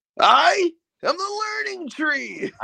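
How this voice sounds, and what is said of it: Imitates another person's voice. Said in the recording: “that was also a very good impersonation”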